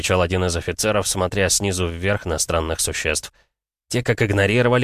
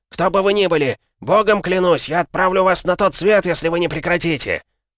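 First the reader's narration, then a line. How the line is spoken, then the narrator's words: Incredulous officer yelling. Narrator (Russian): Неверящий своим глазам офицер заорал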